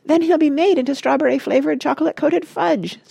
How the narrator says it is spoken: screamed Mrs

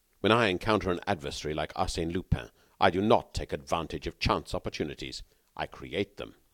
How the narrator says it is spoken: said the Englishman haughtily

